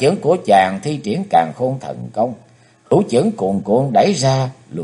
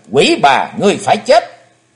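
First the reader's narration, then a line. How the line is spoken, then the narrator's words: Vengeful loud shout. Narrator (Vietnamese): Thù khí bốc cao ngàn trượng, Chí Tôn hét lớn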